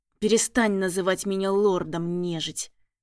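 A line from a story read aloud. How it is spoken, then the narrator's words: Through gritted teeth. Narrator (Russian): Процедил сквозь зубы следопыт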